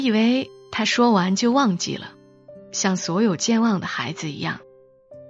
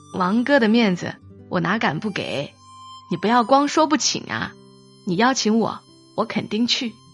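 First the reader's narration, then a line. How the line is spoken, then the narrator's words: Joking. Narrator (Chinese): 我和他开玩笑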